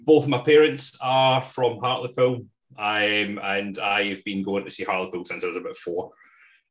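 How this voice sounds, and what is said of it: Scottish accent. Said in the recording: “You might not get that from my accent. ... I am probably the most Scottish person you'll ever find.”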